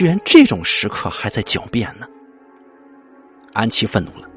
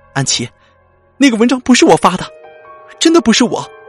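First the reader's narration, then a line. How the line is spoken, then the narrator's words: Crying out. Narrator (Chinese): 张宇轩的哭喊声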